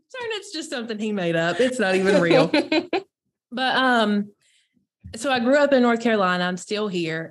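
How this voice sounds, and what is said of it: Strong Southern North Carolina accent. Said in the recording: “That's why I sound, as my husband lovingly says, like I fell off the back of a turnip truck... That's where the accent's from... I know what my accent sounds like”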